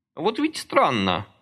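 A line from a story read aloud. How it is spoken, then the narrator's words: Thoughtful. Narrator (Russian): задумчиво молвил он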